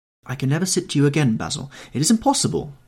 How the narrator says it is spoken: he exclaimed

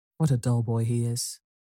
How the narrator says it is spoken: muttered Pandora

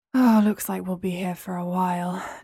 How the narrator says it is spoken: James sighed

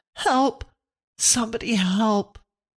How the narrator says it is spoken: heard them scream thickly

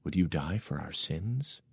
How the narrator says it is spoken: whispered

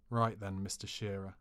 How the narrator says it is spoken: said under my breath

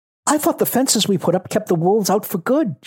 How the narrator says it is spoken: she asked anxiously

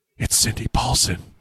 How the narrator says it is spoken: whispered Christian Woods

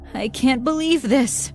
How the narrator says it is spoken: cried

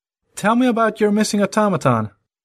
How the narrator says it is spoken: Raising his voice, Harry requested

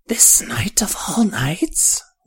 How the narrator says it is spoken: whispered the old woman

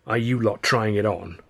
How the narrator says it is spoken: Charlie growled

